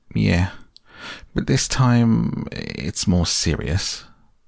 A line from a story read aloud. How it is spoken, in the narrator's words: said the rat gravely